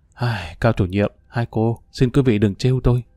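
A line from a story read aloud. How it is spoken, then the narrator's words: Sighing. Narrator (Vietnamese): anh đã thở dài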